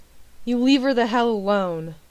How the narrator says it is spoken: John growled

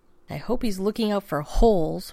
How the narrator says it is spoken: Rodney said, more bitterly than he'd intended

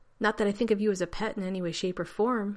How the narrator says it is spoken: he said quickly to John

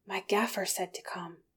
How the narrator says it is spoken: Sam panted

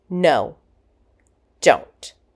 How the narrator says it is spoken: John interrupted him sharply

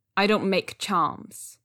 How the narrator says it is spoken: Zhang Cheng said shortly

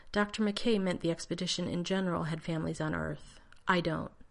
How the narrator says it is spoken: Keeping his voice even, John said

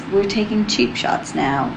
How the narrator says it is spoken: John sighed

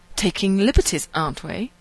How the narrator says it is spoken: Rodney sneered haughtily

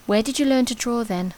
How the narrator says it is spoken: says softly

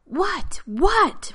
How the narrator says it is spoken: Rodney screamed

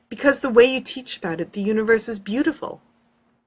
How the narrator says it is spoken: finally blurts

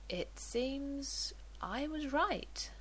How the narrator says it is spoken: he says quietly

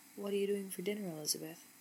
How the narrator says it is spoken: asked, his voice husky and low

